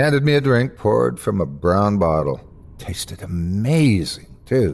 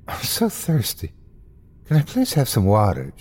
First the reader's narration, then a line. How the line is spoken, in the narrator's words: she pleaded to the bartender